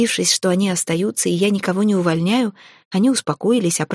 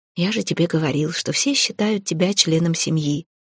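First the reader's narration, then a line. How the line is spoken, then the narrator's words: Soft, quiet. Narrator (Russian): тихонько сказал мне Релиф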